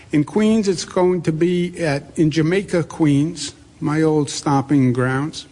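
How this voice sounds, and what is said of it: Queens New York accent. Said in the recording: “This is a Queens accent, by the way, not just a New York accent.”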